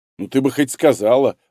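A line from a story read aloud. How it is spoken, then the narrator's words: Laughing. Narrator (Russian): рассмеялся он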